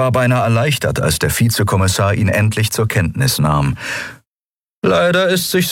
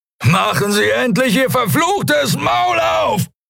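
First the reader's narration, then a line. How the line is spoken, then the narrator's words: Scream. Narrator (German): schrie er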